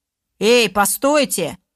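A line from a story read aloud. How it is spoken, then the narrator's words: Loud rough shout. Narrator (Russian): Громким грубым голосом выкрикнул кучер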